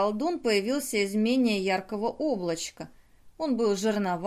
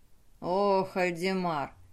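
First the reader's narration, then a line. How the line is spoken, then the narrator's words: Solemn gnome sorcerer. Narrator (Russian): торжественно начал гном-колдун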